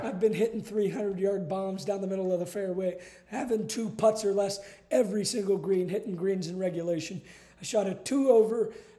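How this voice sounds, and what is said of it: Hoarse, nearly lost voice. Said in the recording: “why my voice is gone ... that's why my voice is gone.”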